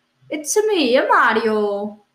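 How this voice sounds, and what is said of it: Mario impression, Italian-style voice. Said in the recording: “could you do your normal impression of Mario, just you doing an impression of Mario? ... That sounded exactly like the last one.”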